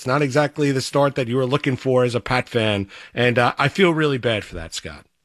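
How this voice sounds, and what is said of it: Sarcastic, mock-sympathetic tone. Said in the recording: “Not a hint of sarcasm at all ... sarcastic sympathy”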